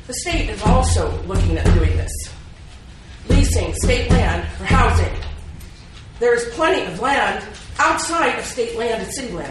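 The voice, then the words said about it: Raised, loud voice. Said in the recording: “sorry for raising my voice.”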